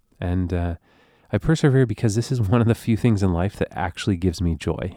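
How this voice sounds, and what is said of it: Strange congested voice. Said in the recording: “I got a weird voice right now. Do you hear the strangeness in my voice? ... That, my friends, is the sound of a sinus infection.”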